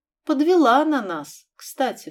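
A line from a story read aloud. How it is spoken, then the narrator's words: Sad sigh. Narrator (Russian): грустно вздохнула Белоснежка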